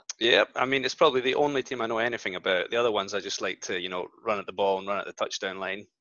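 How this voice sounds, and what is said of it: Scottish accent. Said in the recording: “we might have to put subtitles out for him because he is Scottish ... I've got a pretty good accent.”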